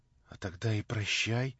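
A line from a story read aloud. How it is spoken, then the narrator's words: Quiet, as if to herself. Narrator (Russian): проговорила тихо Наташа, как будто про себя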